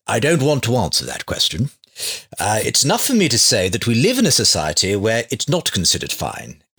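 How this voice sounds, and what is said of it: Imitates another person's voice. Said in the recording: “I'm going to do my best Richard Dawkins accent now.”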